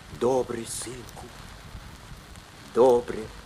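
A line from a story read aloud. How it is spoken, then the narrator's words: Quiet. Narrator (Russian): сказал тихо Бульба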